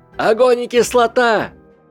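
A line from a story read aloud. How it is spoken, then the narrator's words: Shout. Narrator (Russian): крикнул Гарри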